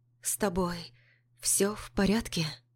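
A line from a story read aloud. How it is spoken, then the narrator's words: Trembling voice. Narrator (Russian): Дрожащим голосом спрашиваю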